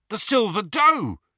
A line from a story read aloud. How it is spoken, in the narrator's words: he said excitedly